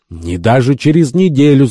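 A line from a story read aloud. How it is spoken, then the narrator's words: Shout from audience. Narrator (Russian): закричал один из присутствующих, сидевших в зале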